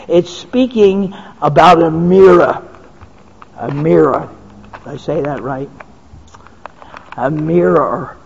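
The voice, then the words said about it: Slight Philadelphia accent. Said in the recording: “I have that little Philadelphia accent that only if you're around from there you'll understand.”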